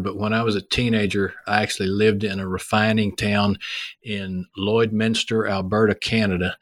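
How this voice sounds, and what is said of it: Texas accent. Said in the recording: “Except for my accent ... There's still quite a few guys with a Texas accent”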